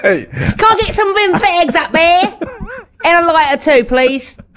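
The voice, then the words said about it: Put-on northern English accent. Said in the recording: “presuming that everybody's from Coronation Street over here in posh London ... do the accent”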